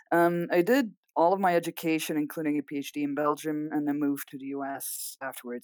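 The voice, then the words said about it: Belgian, Dutch-speaker's English accent. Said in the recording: “I'm Belgian originally. So if you hear an accent, that's because my mother tongue is Dutch.”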